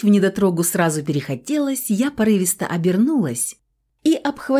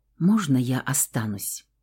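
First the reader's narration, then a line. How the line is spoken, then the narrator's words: Soft whisper. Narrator (Russian): тихонько прошептал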